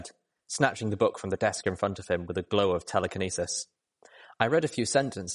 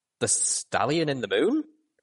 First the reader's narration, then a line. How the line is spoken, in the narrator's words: Calamity chuckled